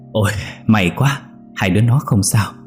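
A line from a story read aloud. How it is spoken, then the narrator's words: Breathless, panting. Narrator (Vietnamese): Chị Tư thở hổn hển nói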